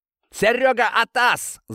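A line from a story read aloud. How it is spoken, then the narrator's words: Yell, man. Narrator (Russian): заорал мужик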